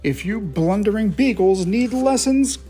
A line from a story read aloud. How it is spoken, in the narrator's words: grumbled Mayor Humdinger